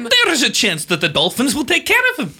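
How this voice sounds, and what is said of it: Norwegian accent. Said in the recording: “This is a Norwegian accent. ... you're worried about his accent.”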